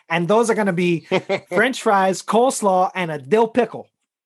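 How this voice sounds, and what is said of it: Exaggerated Chicago accent. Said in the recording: “I had to say that in my most Chicago accent as possible.”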